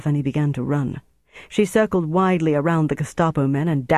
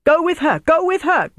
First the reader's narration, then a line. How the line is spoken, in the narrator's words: Dieter shouted at him